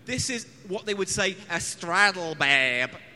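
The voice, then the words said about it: Put-on American accent. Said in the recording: “My accent is just as good as Andrew Lincoln's in Walking Dead... Was that your... American accent... That was your American accent.”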